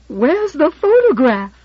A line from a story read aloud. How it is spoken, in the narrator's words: in half a shriek